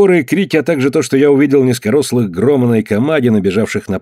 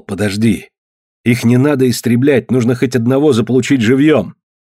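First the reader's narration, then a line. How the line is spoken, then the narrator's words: Whispered. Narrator (Russian): Я прошептал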